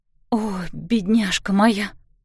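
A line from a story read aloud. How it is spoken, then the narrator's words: Whisper. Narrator (Russian): шептала Кларисса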